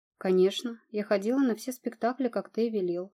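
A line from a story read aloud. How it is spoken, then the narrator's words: Plain. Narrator (Russian): ответила Рита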